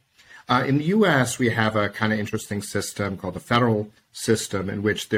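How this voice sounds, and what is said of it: American English accent. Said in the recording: “I'm a U.S. lawyer. You can tell by my accent.”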